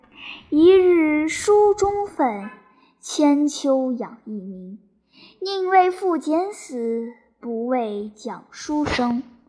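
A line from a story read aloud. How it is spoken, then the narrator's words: Lamenting recitation. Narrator (Chinese): 后人有诗叹曰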